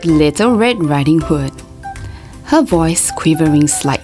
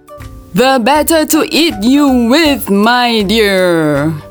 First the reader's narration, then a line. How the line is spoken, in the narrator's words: roared the wolf